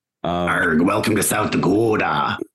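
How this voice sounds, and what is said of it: South Dakota pirate accent. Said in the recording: “Do the South Dakota pirate accent.”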